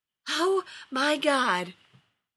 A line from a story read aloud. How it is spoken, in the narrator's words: wheezed Rodney looking as panicked